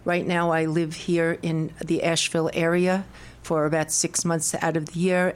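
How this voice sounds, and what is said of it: Brooklyn New York accent. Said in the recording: “I come from Brooklyn, New York, and I'm proud of my accent ... the accent has followed me”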